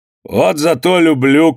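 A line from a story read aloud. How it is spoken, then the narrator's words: Shout. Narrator (Russian): крикнул Иван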